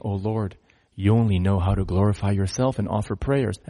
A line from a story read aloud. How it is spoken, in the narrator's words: Trembling with fear, Murari pleaded with the Lord, saying